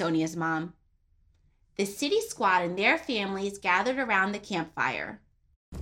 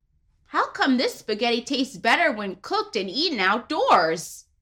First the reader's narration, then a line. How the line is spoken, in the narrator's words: exclaimed Dominic